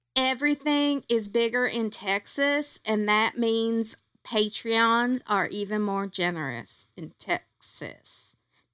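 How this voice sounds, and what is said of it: Poor put-on Texas accent. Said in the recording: “I can't do a Texas accent ... That my accent is poor to fair ... I'm unimpressed with my horrible accent”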